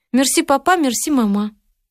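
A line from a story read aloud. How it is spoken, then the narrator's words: Thin clever-girl voice. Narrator (Russian): Катя говорила тоненьким голосом умной девочки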